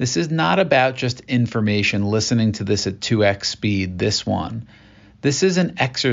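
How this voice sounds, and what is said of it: Usual voice. Nothing is said of it.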